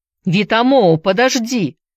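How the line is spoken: Shout. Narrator (Russian): закричал Филипп

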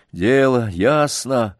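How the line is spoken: Grim and angry. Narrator (Russian): мрачно и со злобой повторил Сергей

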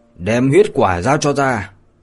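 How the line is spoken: Angry. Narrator (Vietnamese): khuôn mặt của Lâm Động lướt qua một sự giận dữ mà nói

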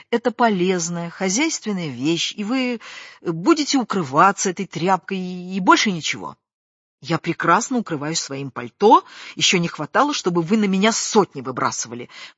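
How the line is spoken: Heated exclamation. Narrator (Russian): воскликнула, как всегда заводясь

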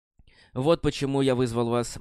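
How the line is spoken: Sigh. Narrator (Russian): Мэйн вздохнул

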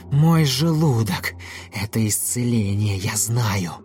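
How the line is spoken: Air-shaking roar. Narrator (Russian): Мантикора зарычала так, что задрожал воздух

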